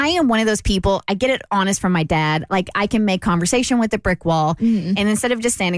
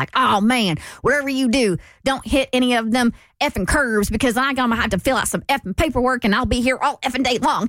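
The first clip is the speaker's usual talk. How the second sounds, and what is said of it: Thick Southern accent. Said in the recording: “there was a thick Southern accent”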